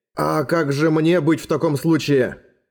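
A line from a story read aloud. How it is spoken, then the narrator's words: Plain question. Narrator (Russian): спросил Эрагон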